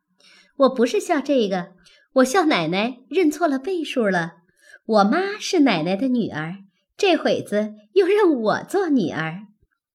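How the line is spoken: Laughing. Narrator (Chinese): 小红笑道

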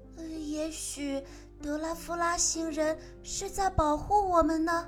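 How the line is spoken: Quiet voice. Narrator (Chinese): 有人小声地说

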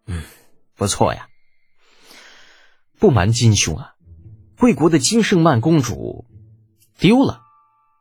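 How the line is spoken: Sighing. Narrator (Chinese): 李浩叹了口气

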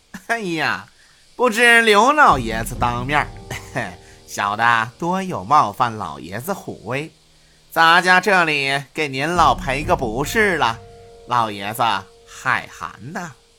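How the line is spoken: Fawning, ingratiating. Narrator (Chinese): 他换了一副媚笑的嘴脸，对刘奇峰说道

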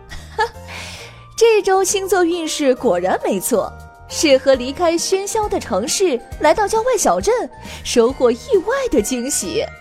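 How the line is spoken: Laughing delightedly, repeatedly. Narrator (Chinese): 姑妈咪呀笑得合不拢嘴，连连说道

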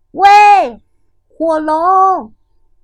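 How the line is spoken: Shouting as loud as possible. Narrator (Chinese): 尽可能大声的喊道

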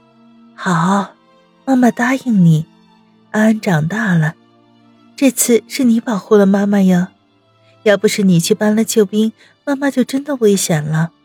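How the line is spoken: Gentle, comforting. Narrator (Chinese): 柔声的安慰起儿子来

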